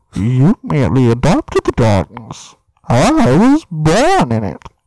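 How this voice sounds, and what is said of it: Bane impression. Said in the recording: “Bane? ... That's probably my best impression. ... It's pretty good.”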